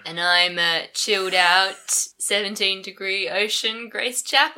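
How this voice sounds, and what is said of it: Deliberately deep voice. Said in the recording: “A deep voice”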